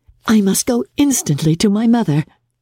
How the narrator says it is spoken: cried Jane

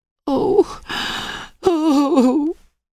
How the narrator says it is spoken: gasped Emily

